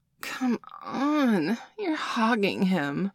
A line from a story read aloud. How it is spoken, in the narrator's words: Nicole whined